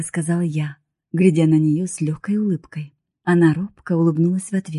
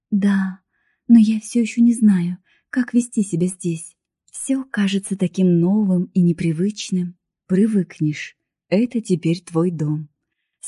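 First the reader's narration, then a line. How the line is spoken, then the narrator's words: Gentle. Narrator (Russian): сказал я мягко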